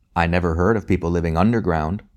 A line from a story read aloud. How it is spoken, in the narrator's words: replied Tim